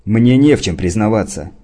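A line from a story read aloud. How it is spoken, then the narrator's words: Barking. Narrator (Russian): рявкнул он на Шиллинга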